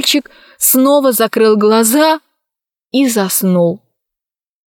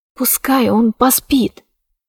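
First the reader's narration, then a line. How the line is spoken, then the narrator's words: Whispered. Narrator (Russian): прошептала она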